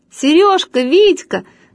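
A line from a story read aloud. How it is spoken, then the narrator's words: Shouted. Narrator (Russian): закричала сразу Люська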